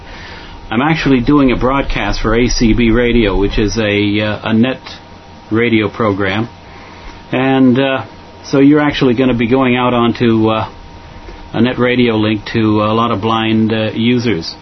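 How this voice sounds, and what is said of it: American Boston accent. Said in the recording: “I know the accent says I'm not a Brit, but I'm from Boston originally”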